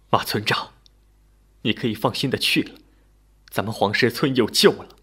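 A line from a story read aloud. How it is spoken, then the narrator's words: Tearful. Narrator (Chinese): 李四方 哭着说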